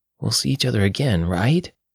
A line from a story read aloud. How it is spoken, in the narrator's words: Teresa breathed heavily